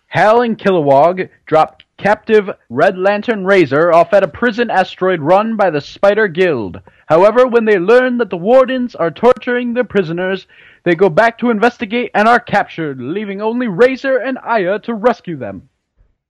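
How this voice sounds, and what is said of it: Dramatic cartoon announcer voice. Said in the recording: “you were able to do that in the Superfriends announcer voice”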